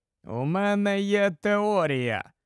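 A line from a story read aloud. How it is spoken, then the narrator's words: Slow speech. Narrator (Ukrainian): повільно сказав Моррісон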